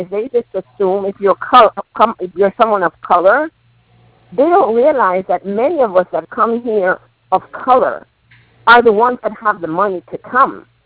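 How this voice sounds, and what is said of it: Slight Jamaican accent. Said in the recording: “I could hear a little bit of that Jamaican accent there.”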